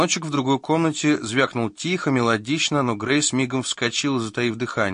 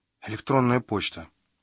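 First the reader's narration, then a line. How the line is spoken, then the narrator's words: Whisper. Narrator (Russian): шепнула она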